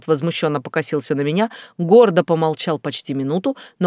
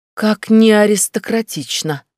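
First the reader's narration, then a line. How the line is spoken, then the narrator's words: Purring. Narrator (Russian): промурлыкала я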